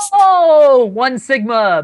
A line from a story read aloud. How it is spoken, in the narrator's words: Master Chief yelled to Big Alien